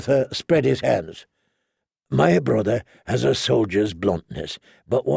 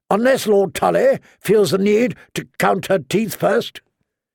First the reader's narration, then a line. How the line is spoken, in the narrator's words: said Walder Rivers curtly